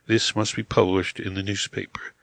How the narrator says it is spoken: said calmly

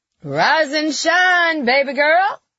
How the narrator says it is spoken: Carrie shouted

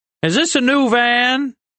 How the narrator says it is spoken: Rin asked loudly

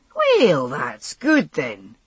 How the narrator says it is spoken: Jamie remarked cheerfully

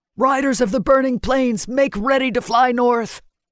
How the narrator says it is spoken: In stronger voice, he called out

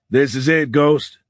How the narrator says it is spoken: Fitz said to the others, talking loudly to be heard over the hum of the engine noise

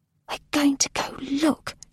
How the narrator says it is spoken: she whispered once she had calmed down

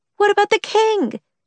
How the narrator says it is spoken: Lee screamed

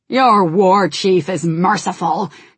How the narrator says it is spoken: Garrosh snarled

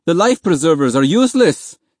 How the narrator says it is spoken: He roared

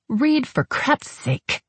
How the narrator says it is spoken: Hope hissed, … to whisper irately

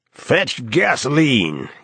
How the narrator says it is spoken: he bellows

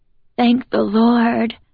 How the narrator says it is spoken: Joe sighs

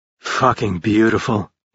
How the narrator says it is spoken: he murmured

